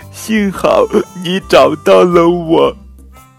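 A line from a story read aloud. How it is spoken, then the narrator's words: Crying. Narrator (Chinese): 公主哭着说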